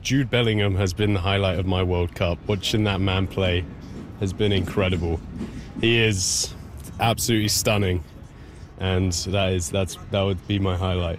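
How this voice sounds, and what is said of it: English accent. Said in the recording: “by your accent, you're from England? ... Yes, I'm from England.”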